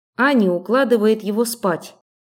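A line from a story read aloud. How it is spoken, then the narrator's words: Plain. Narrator (Russian): ответила я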